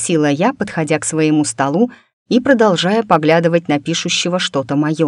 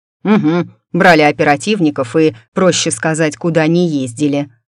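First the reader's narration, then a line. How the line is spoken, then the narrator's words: Snort. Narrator (Russian): фыркнул Дан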